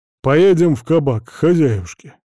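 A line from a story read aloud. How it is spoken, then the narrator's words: Grumbling. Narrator (Russian): проворчал Митрофаныч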